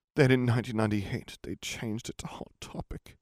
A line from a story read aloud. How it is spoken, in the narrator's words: he moaned